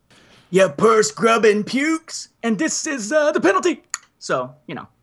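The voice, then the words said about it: Imitates another person's voice. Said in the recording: “That's a really good Roth impersonation”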